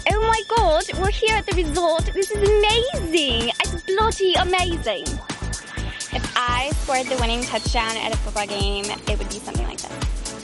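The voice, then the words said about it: Put-on British accent. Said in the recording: “I have a really good British accent.”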